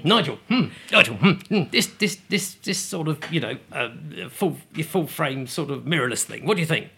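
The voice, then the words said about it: Impression of John Bentley. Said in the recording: “I've done John Bentley.”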